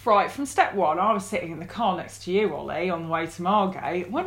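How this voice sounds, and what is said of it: Fake English news-reporter voice. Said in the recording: “You're doing a strange voice, though. ... this is my news reporter voice. ... It's sort of like a fake English accent, which is weird for an English person.”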